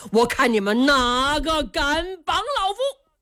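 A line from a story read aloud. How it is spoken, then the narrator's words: Furious loud shouting. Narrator (Chinese): 武建章一听暴跳如雷，高声喊嚷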